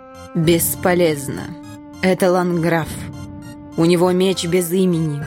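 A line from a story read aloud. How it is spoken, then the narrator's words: Creaky female voice. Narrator (Russian): женский голос проскрипел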